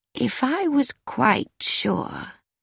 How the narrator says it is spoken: Miss Marple said slowly

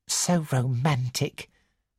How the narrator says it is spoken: murmured Miss Pierce

